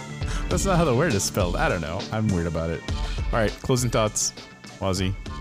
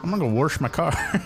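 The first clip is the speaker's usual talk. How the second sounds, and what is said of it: Put-on Southern accent. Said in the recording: “like the Southern accent when people say what, or like when they say the word wash, they say warsh”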